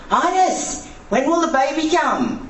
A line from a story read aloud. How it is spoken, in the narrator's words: One yelled